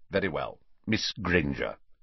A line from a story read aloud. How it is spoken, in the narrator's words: Snape saying curtly